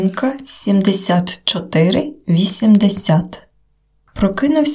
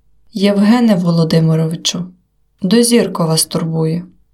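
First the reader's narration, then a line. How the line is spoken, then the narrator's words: Unsteady voice. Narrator (Ukrainian): Нерівним голосом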